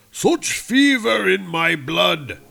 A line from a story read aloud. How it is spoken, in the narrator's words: cried Odin